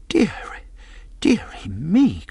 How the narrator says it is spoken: cried my mother

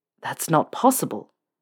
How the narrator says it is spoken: Draco whispered, stunned

